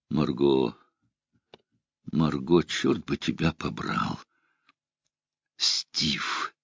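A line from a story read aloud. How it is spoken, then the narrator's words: Whispered. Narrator (Russian): он прошептал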